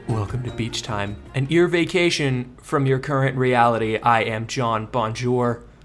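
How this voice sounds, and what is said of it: Smooth, polished podcast-host voice. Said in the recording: “you had a beautiful podcast voice start to that... Very smooth... I feel like I got possessed by someone who's good at a podcast”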